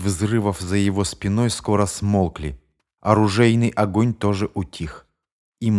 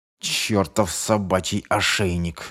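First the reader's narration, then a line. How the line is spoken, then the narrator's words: Growling while running hard. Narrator (Russian): зарычал Шефер, пытаясь бежать еще быстрее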